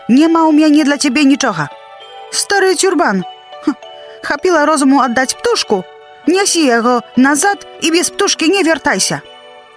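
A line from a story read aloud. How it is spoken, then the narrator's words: Shouting. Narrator (Belarusian): крычыць Марыся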